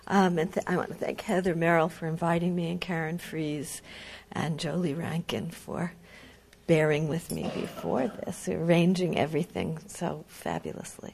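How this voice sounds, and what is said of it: Congested, stuffy-sounding voice. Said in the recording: “I'm sorry, I have a cold, so bear with me.”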